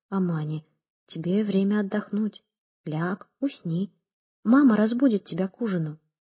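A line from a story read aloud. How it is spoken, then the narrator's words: Soft, gentle. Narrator (Russian): Карим мягко обратился к ней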